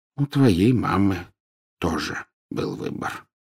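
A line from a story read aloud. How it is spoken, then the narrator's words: Gentle. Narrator (Russian): мягко проговорил Дамблдор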